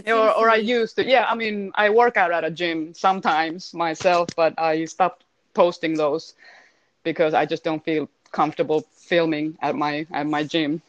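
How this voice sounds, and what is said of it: Finnish accent in English. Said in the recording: “how amazing her accent is? ... I still have an accent. ... It's beautiful.”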